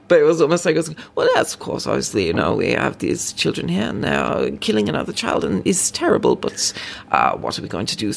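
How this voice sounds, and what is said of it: Put-on Norwegian accent. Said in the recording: “I'm going to do a bad accent, but also I've been watching a lot of Scam, so I feel like my accent's kind of good”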